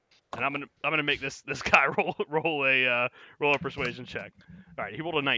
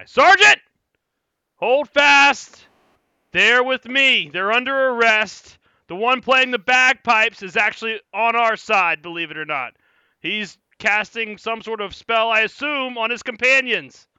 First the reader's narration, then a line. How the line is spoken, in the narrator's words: he's going to say, he's going to scream at the guy